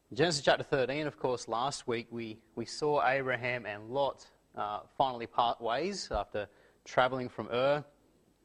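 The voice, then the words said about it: Croaky, hoarse voice. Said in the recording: “excuse my voice ... It's a bit croaky this morning.”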